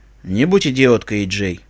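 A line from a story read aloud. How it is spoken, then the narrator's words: Tired voice. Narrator (Russian): устало произнес Керби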